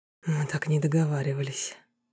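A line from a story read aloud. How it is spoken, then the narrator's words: Barely restrained whisper. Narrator (Russian): едва сдерживаясь, прошептал он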